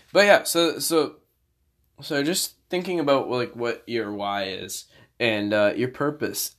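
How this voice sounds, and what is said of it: Tired, strained, fading voice. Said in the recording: “I'm tired ... I'm like yawning uncontrollably ... And I'm losing my voice simultaneously.”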